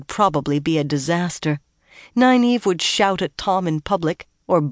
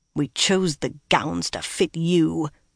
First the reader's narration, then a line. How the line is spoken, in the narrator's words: the other woman muttered after a moment